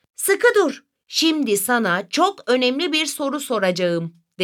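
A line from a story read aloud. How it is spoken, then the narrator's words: Plain. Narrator (Turkish): dedi Memo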